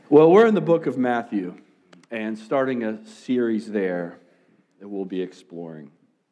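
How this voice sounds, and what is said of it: Slightly raspy voice from cold. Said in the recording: “I have a cold. So that's kind of the why my voice might sound a little raspy”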